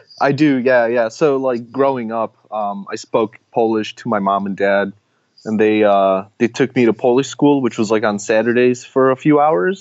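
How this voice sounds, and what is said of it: Chicago accent. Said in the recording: “I still hear a Chicago accent.”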